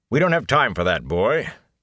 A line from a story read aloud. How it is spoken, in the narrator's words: Tom said gruffly